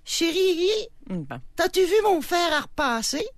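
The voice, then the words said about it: Imitates a woman's voice. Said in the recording (French): “ton imitation de la femme ... je voulais que vous distinguiez bien les voix”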